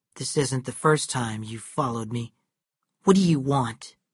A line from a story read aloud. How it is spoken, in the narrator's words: She said to him coldly